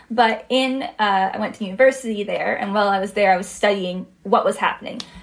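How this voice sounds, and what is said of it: Slight Canadian accent. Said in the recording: “Listeners might have noticed from your accent there's a hint of Canadian”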